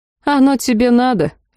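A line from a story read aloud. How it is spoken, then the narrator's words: Lazy reply. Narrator (Russian): лениво отозвалась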